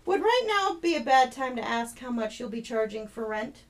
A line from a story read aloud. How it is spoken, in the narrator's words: Jed laughed